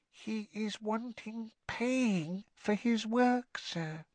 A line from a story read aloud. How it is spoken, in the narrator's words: Winky lowered her voice by a half octave and whispered